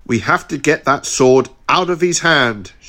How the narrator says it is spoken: shouted Liambo

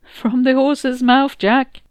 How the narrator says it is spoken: Tonya laughed

